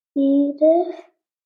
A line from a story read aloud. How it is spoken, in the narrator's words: said, trying to keep his voice steady